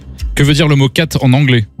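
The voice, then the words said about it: Poor English pronunciation accent. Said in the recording (French): “son accent, il est pourri à”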